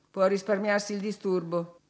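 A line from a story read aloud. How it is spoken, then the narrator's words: Plain. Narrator (Italian): disse Heathcliff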